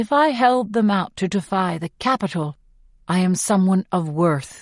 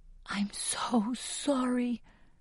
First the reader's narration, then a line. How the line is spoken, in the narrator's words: whisper